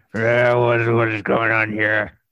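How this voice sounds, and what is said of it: Impression of Pixis. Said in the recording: “Good impression.”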